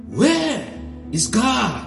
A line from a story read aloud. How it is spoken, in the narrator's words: the clergyman raised his voice even more and bellowed